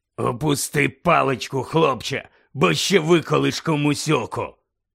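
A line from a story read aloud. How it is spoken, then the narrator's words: Low, rasping voice. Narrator (Ukrainian): сказав хтось низьким і гаркавим голосом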